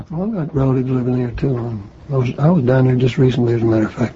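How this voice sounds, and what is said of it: Houston Texas accent. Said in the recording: “the same kind of accent that I've got”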